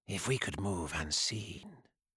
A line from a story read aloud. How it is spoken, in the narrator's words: Ionis murmured